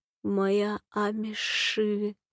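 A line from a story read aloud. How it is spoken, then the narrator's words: Moan. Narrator (Russian): застонал Нагулит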